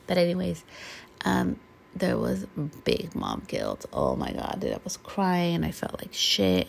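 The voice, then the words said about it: Hoarse, weakened voice. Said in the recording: “I apologize for my voice. It's been gone... my voice is not back yet, 100%.”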